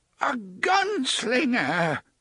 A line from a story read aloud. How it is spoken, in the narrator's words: the man cried